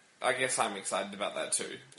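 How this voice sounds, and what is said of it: Flat, unenthusiastic deadpan tone. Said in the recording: “You sound super excited. ... Can't you tell? This is my excited voice.”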